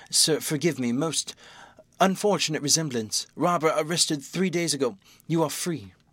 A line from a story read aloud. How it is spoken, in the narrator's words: he stammered